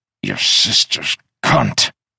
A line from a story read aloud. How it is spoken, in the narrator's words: he slumped over, paused, and as a thin runner of drool drew a silver line to his lap, he grunted